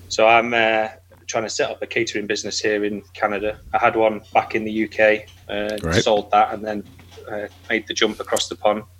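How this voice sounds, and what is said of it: English accent. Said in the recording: “I'm from England, as you can probably tell by my accent.”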